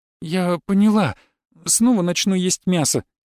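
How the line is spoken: Frightened reply. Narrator (Russian): испуганно отозвалась она

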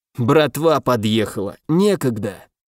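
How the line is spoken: Contemptuous, pleased, hoarse. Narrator (Russian): презрительно бросил он довольным хриплым голосом

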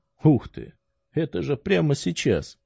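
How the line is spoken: Slightly raised exclamation. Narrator (Russian): чуть повысив голос, воскликнул мой потомок

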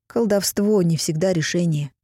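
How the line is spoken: Calm pronouncement. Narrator (Russian): спокойно изрекла Гитта

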